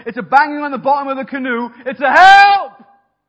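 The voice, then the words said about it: Shouting loudly. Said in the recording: “keep shouting ... I can't promise to be quiet.”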